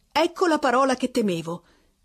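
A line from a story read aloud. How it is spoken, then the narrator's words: Woman exclaiming, turning pale. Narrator (Italian): esclamò la donna impallidendo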